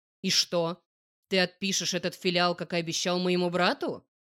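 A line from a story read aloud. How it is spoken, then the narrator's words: Hateful bark. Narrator (Russian): С ненавистью рявкнул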